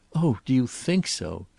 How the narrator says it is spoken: she asked breathlessly

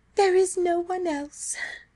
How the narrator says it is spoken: she said mournfully

